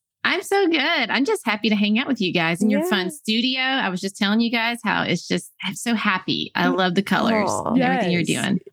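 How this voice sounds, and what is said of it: East Tennessee accent. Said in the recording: “I hear a little bit more of your accent coming out there ... that East Tennessee accent”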